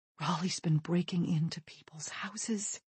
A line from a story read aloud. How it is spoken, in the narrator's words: says, lowering her voice even further